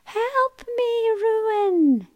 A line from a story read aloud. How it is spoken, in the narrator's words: cried out